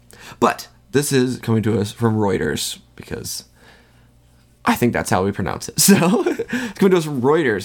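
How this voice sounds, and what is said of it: Stuffy, congested nasal voice. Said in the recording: “My nose is a little stuffed up, so if I sound weird on here, that's why ... my throat's a little cloggy”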